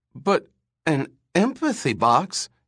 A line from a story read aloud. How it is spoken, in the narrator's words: he said, stammering in his excitement